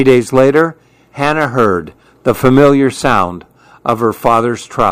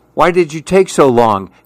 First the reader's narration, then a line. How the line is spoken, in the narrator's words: Hannah asked him